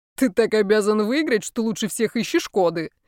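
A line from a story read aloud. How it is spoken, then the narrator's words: Burst of laughter. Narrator (Russian): расхохотался Шейк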